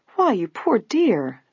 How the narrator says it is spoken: the housekeeper exclaimed in concern

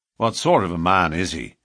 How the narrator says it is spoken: McMurdo asked

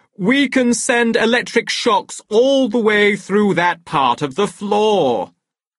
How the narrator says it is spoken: shouted in explanation

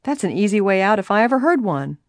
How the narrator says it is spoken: Nancy commented with a laugh

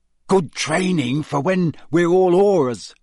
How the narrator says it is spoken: said Ron excitedly

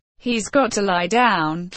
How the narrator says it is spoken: Frank said

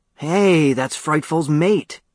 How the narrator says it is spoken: he exclaimed

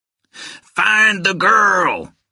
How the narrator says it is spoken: screamed

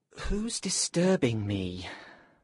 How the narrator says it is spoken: Benvolio asked sleepily

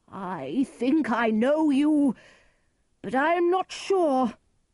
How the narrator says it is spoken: Lear cried

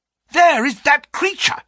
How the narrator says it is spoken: cried Grant Munro

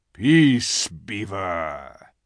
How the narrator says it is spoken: said Aslan with a very low growl

